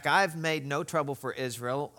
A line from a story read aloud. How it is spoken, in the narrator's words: Elijah replied